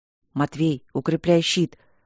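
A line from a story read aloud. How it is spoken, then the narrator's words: Silent lip whisper. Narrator (Russian): одними губами шепнул Поляна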